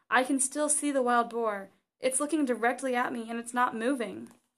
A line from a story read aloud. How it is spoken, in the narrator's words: the man who had received the vision exclaimed